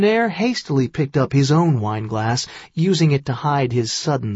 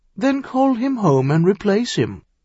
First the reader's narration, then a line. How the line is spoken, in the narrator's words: Ducairn suggested sweetly